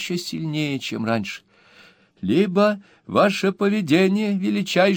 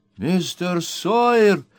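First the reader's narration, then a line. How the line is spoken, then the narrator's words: Startled old woman exclaiming. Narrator (Russian): вздрогнув, воскликнула старая леди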